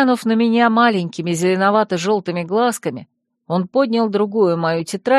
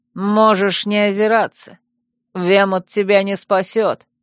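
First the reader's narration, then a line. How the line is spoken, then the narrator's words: Scornful snort. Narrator (Russian): хмыкнул он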